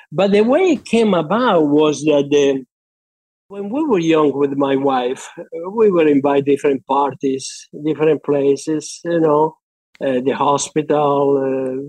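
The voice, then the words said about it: Argentine-accented English. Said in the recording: “they noticed my accent... Where you come from? And I start to talk about Argentina”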